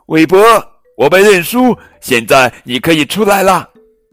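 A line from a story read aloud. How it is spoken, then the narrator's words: Calling out. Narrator (Chinese): 艾玛叫道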